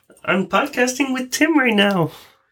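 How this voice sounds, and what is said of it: Kermit the Frog character voice. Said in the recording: “Do Kermit the Frog.”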